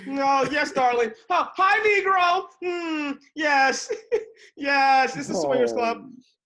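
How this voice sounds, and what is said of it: Caricatured mock voice. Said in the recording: “That was my impression. That was my impression of white people having sex.”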